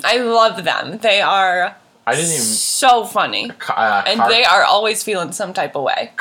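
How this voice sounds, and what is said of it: Usual voice. Nothing is said of it.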